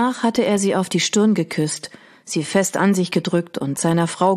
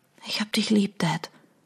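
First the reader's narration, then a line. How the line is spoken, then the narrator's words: Whisper. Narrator (German): flüsterte Audrey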